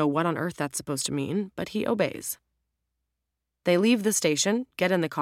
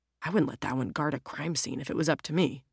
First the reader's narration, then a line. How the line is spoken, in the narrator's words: Jack mutters